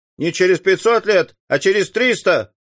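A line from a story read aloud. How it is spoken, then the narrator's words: Shouted. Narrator (Russian): крикнул кто-то из присутствующих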